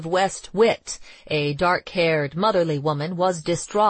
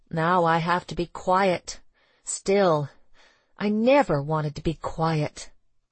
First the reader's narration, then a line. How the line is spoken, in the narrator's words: she said miserably